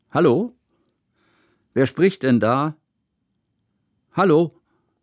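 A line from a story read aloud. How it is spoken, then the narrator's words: Loud, echoing. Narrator (German): Laut hallte Kusmins Stimme durch den Raum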